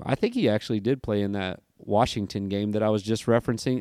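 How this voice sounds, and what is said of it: Slightly tired voice. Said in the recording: “sorry if my voice is a little tired”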